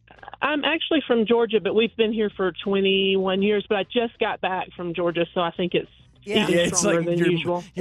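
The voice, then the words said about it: Southern twang accent. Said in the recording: “I love your accent. Like, I love the twang. ... it's a beautiful, beautiful accent. You sound really nice.”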